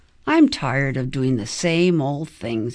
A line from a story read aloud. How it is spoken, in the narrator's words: grumbled